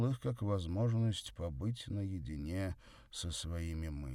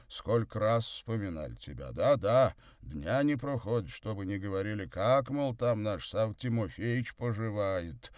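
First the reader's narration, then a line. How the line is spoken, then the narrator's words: Cheerful deep bass. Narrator (Russian): весело басил он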